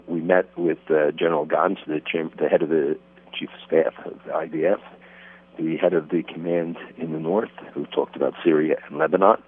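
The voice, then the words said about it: Congested voice with a cold. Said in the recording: “I have a cold ... it's becoming very obvious”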